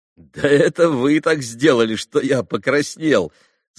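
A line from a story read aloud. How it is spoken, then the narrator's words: Laughing. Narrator (Russian): засмеялся Алеша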